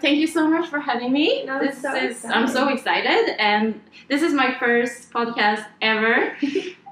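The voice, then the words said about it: Swedish accent in English. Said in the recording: “I need to explain my accent, maybe... I'm from Sweden, so that's why I'm talking like this... Your English is perfect.”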